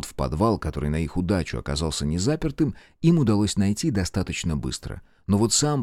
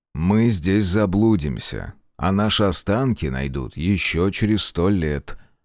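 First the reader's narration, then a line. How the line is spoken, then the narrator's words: Gloomy grumbling. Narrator (Russian): мрачно проворчал Белецкий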